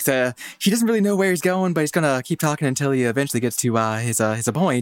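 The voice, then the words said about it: Imitates another person's voice. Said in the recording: “that was a great impression. That was really good.”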